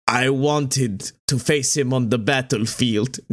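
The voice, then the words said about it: Put-on Russian-sounding accent. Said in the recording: “Nope, I'm still Russian.”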